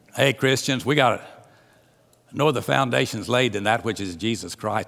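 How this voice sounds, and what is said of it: Southern American accent. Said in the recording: “his old Southern Alvin accent like I've got”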